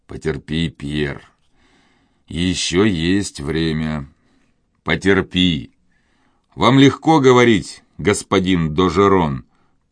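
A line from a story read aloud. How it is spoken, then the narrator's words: Grumbling. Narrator (Russian): проворчал тот, кого звали Пьером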